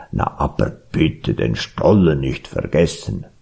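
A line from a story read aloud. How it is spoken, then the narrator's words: Bear grumbling. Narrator (German): brummte der Bär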